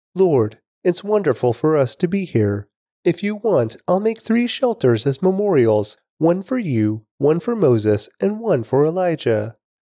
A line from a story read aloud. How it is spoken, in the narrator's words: Peter exclaimed